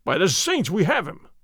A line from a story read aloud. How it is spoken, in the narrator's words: Gonzales cried